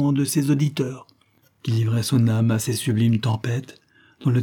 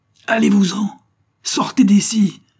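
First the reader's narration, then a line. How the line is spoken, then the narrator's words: Furious exclamation. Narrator (French): s'écria-t-il avec fureur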